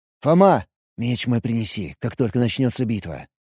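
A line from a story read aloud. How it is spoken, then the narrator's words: Whisper. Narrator (Russian): прошептал я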